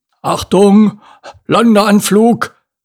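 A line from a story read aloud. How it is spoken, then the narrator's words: Slightly nervous call. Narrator (German): rief er, und es schien Pogo, als wäre da eine Spur Nervosität in seiner Stimme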